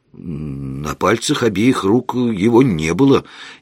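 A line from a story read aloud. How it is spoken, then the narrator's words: Uncertain statement. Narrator (Russian): неуверенно заявил я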